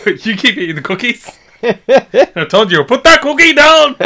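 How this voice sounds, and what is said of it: Shouting in a poorly imitated accent. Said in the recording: “Why do you always use that accent when you shout at me? ... Did not sound like Arnold Schwarzenegger. ... It was pretty bad.”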